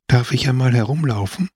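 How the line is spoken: Sudden humble voice. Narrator (German): Auf einmal sagte Giacomino mit demütiger Stimme

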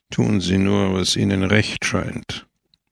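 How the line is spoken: Murmur. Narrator (German): murmelte er

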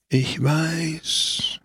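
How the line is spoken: Old man's breathy whisper. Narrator (German): hauchte der Alte

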